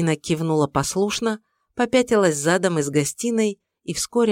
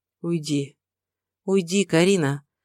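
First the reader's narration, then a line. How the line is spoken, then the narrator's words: Surprisingly calm. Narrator (Russian): проговорила на удивление спокойно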